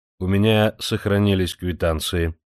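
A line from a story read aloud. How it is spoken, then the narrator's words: Dry reply. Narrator (Russian): сухо ответил тот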